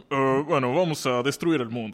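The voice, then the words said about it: Put-on man's voice. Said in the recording (Spanish): “Haz voz de hombre.”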